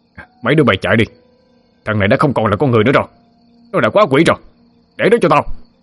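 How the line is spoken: Man's shout. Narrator (Vietnamese): Ông ta la lên

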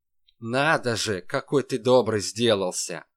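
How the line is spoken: Angry reply. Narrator (Russian): Злобно ответил ему Калашников

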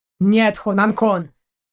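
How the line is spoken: Snapped. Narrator (Russian): огрызнулся Даллок

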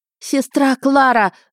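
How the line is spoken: Yelling at full volume. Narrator (Russian): заорала я во всю глотку

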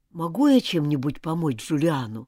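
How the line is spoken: Plain. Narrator (Russian): спросил он

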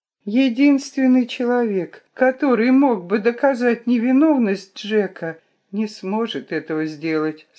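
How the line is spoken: Sad. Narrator (Russian): сказала грустно

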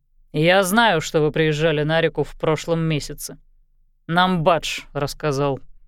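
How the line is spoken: Grumbling. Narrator (Russian): буркнул Кармана

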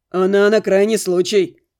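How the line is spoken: Snort. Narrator (Russian): хмыкнул Максим

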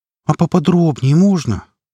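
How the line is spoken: Pleading tone. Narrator (Russian): просящим тоном произнесла она

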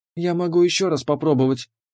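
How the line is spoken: Uncertain mumble. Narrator (Russian): неуверенно пробормотала

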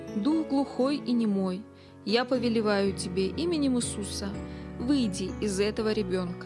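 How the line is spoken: Calm, commanding. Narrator (Russian): Билл спокойно сказал

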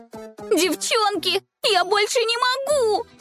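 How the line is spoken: Shout. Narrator (Russian): закричала Аленка

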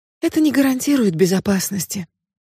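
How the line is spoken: Sighing. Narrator (Russian): вздохнула она

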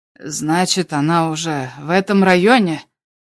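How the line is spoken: Hoarse question. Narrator (Russian): спросил Тайкос хрипло

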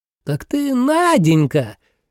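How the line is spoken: Ringing loud exclamation. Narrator (Russian): воскликнула она почти прежним звонким и громким голосом

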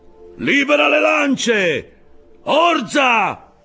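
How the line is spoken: Shouted command. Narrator (Italian): gridò Acab

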